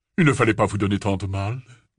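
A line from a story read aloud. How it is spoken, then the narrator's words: Deep voice. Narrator (French): déclara-t-il d'une voix grave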